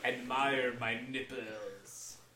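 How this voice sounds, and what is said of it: Bad fake French accent. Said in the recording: “weird voice ... It's a terrible French accent ... that's really a terrible French accent”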